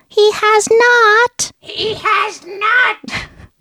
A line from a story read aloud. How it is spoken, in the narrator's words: an eerie shriek responded